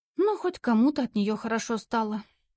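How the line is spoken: Sighing. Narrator (Russian): вздохнула Лариса

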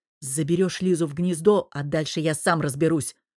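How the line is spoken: Growl. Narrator (Russian): рыкнул я

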